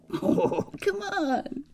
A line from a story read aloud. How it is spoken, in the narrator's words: he said, and began to laugh again